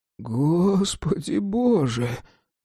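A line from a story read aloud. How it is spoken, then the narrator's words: Hoarse cat whisper. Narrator (Russian): хрипло прошептал кот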